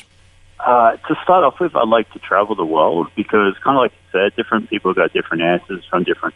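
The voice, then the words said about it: Australian accent. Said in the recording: “you got that nice Australian accent”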